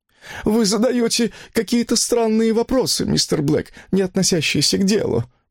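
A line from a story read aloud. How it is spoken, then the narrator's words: Dry short laugh. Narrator (Russian): проговорила она, коротко и суховато рассмеявшись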